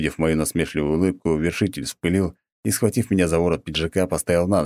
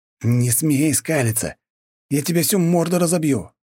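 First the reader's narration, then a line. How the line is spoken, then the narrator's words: Angry hiss. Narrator (Russian): прошипел он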